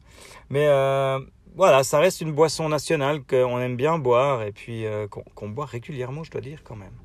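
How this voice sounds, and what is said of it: Swiss French accent. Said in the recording (French): “mon accent suisse”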